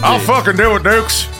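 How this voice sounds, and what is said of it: Put-on Virginia redneck accent. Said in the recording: “my Fredericksburg redneck impression.”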